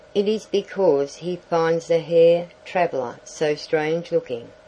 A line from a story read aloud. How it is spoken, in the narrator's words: she said